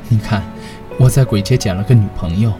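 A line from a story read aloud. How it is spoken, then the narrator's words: Wry laugh. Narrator (Chinese): 我对我的小伙伴们苦笑一声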